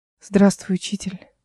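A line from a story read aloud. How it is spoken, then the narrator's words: Whispered. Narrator (Russian): шепнула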